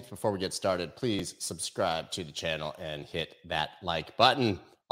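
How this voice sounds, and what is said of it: Hoarse, strained voice. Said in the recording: “I apologize for my voice, actually slowly recovering here from strep throat.”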